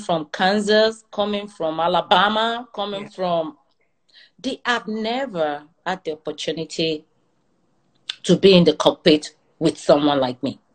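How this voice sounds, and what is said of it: Nigerian accent. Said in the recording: “I have my accent ... I'm a Nigerian. Yeah, that's why I'm going to sound different from you.”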